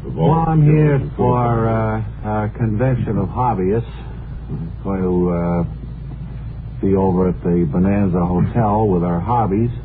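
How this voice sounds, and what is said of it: New England accent. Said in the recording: “that New England accent”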